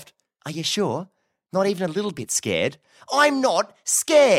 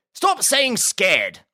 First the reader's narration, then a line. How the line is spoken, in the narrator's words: Huxley barked